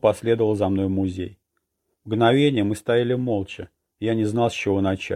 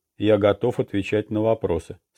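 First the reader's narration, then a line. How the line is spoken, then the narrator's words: Plain. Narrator (Russian): сказал комиссар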